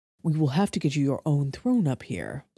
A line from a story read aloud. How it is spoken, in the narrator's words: Valerius murmured